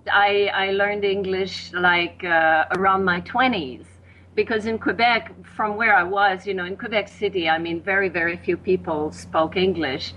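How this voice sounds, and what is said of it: Quebec French-accented English. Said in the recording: “my accent and certain things that I say funny”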